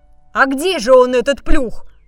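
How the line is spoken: Plain. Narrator (Russian): Спросил лев

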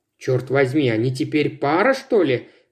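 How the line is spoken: Muttering under breath. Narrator (Russian): пробормотала себе под нос Мосс

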